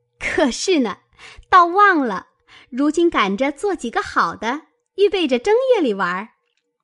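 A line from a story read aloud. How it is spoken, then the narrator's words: Group laughing. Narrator (Chinese): 众人听了都笑道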